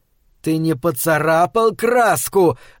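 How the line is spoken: Yelling inner voice. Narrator (Russian): заорало на него его сознание

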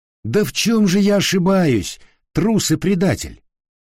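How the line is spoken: Exclaiming. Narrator (Russian): воскликнул Дон Кихот

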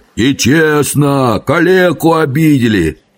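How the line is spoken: Two voices wailing. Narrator (Russian): обе завопили в два голоса

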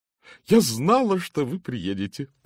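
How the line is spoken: Joyful. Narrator (Russian): радостно заявила миссис Оливер

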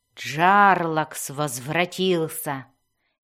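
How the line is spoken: Exultant growl. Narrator (Russian): ликующе прорычала Мелис

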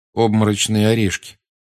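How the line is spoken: Quiet prompting. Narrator (Russian): тихо подсказал Гарри

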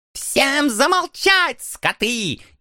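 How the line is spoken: Sudden loud bark. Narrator (Russian): неожиданно громко рявкнул принц

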